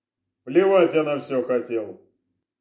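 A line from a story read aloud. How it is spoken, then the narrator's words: Colonel's dismissive snort. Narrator (Russian): хмыкнул полковник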